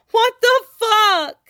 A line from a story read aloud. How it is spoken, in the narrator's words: He howls internally